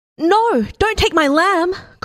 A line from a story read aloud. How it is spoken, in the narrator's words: cried the girl